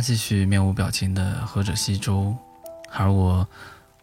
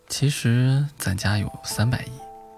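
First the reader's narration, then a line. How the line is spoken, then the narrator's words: Flat, offhand. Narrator (Chinese): 我爸淡淡的说了句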